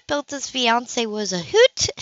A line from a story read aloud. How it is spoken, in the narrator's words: she chuckled